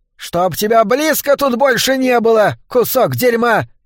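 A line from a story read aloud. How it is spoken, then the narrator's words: Shrieking. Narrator (Russian): визжала Анна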